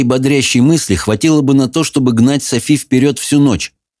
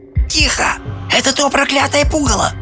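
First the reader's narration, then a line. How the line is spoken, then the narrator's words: Hissed. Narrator (Russian): прошипела Софи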